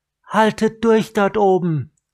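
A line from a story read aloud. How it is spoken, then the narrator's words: Calling up loudly. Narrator (German): rief sie den restlichen Menschen in den Bäumen zu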